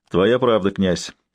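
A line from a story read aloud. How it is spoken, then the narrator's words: Laughing. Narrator (Russian): засмеялся Дедык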